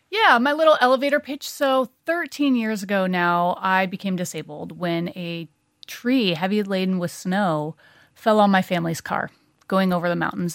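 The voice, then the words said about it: American accent. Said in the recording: “my American accent? ... I absolutely can.”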